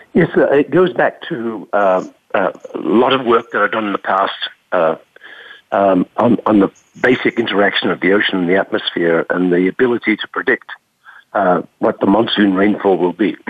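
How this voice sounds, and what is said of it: Congested, rough sick-sounding voice. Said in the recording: “I apologize for my voice, by the way. I have quite a bad cold”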